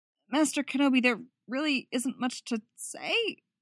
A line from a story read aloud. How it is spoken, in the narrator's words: her voice cracked at the end